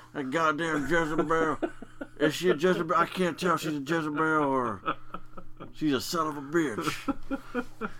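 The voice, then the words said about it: Imitates a wrestling commentator's voice. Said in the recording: “My Jim Ross imitation, by the way, is spot on.”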